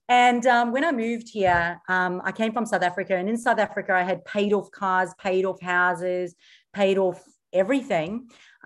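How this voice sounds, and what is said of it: Mixed South African, Australian, New Zealand accent. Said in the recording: “my accent because it's a little bit muddled and mixed. So I'm originally from South Africa ... hence the mixed accent ... it's kind of a three-way accent.”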